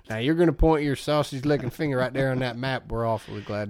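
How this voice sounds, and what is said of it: Exaggerated bad Southern accent impression. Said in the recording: “When he does a Southern accent, it's horrible. ... I came up with this accent”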